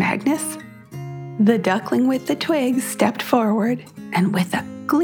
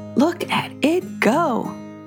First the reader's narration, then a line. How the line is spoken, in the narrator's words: Brooke chuckled